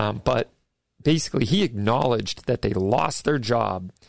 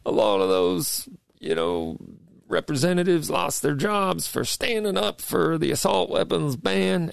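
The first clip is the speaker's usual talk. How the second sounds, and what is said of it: Poor Bill Clinton impression. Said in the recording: “this is my bad, impersonation of Bill Clinton”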